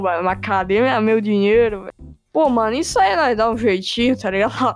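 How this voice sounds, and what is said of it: Imitated Paraná accent. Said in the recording (Portuguese): “estereótipo de prefeito corrupto gordo ... sotaque paranaense dele, que ele tem esse sotaquezinho aí”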